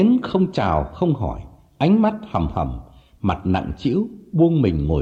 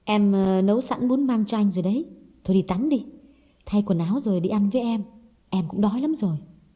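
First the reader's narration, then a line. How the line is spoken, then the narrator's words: Soft gentle speech. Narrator (Vietnamese): Hồng nhỏ nhẹ nói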